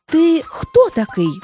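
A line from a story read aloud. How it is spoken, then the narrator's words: Exclaiming. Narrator (Ukrainian): вигукнув він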